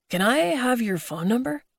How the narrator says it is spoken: He asked breathlessly

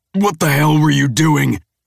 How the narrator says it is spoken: He snarls

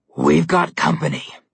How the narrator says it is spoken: Malumclaw growled

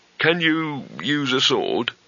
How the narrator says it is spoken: he said weakly

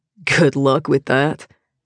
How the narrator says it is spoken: John mutters

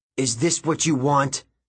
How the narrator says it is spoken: Golan shouted

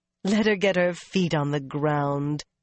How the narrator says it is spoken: Mirella said with a laugh

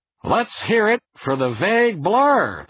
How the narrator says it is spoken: the host said loudly

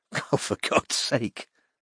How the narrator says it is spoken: said Anna, with a tight little laugh

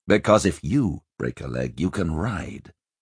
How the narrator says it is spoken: the prince said dryly

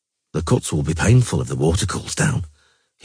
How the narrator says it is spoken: he murmured

